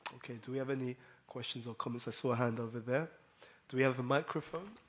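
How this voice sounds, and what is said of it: Voice affected by a cold. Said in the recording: “my voice is a little bit, I've got a bit of a cold”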